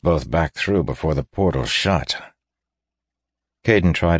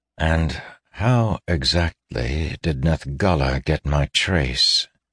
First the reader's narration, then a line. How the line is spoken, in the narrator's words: Caden asked wearily